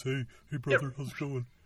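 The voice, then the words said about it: Dopey character voice. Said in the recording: “the bit of the dopey voice”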